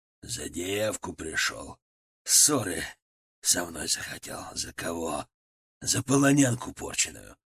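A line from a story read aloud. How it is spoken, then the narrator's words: Hissed. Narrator (Russian): прошипел Молчанов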